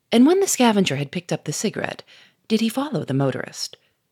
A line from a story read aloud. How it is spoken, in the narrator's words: Gouchard said in a quieter voice